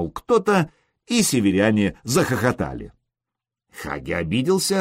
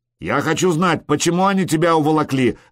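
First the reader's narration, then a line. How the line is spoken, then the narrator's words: Barking shout. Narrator (Russian): рявкнул Харальд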